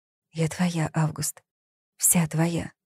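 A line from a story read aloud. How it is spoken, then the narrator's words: Intimate whisper. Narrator (Russian): она прошептала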